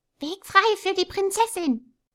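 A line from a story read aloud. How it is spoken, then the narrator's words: Squeaky voices. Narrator (German): piepsten die Beifahrer gegen die Kinder hin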